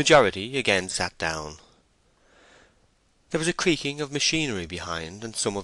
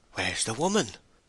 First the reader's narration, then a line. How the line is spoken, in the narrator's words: whispered some of the spectators